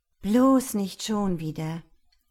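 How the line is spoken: Groaning. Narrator (German): stöhnte sie

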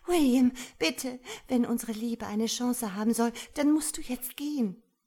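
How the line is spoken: Pleading. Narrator (German): flehte

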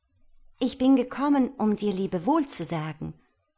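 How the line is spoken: Called out. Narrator (German): rief sie

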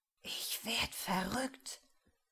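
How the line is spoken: Faint whisper. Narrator (German): Tobias' Stimme ist nur noch ein Wispern

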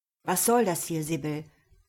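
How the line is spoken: Angry question. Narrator (German): fragte wütend

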